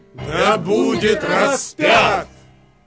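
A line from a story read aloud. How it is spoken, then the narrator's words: Loud shouting crowd. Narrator (Russian): Но они еще сильнее кричали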